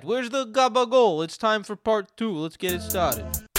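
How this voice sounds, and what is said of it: Heavy put-on Italian accent. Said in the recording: “Give me some heavy Italian. ... Heavy Italian.”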